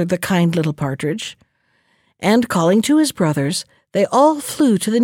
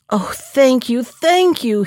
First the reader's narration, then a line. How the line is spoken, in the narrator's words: cried with joy